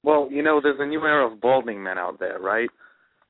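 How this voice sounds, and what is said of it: New York accent. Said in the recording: “How did you get a New York accent all of a sudden?”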